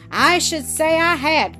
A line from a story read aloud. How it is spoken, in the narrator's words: cried Lightfoot